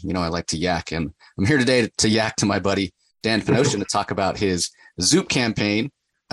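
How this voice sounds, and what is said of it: Worn, slightly strained voice. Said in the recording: “my voice is still a little under the weather from San Diego ... just so much yakking”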